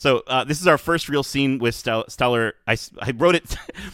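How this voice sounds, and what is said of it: Usual voice. Nothing is said of it.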